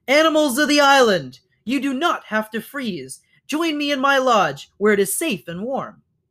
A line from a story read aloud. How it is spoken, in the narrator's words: she called out to whoever was listening